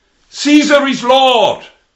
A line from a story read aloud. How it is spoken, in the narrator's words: they had to shout